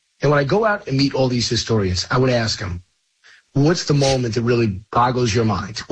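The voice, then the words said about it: Slightly hoarse voice. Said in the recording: “losing your voice. ... I'm a little hoarse”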